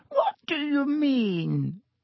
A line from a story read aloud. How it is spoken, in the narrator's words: said Dibbitt with a squeak in his voice